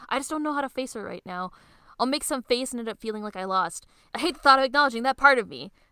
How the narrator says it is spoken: shouts

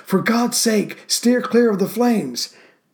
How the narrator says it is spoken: Mason had to yell through the loudspeaker to Hill

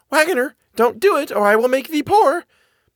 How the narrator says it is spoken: it cried

